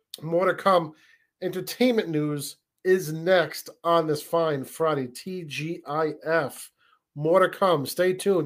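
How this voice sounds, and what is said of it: Strained, worn-out hoarse voice. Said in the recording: “my voice, I just uh, sung, sung some tunes before the show, so my voice is a little bit shot”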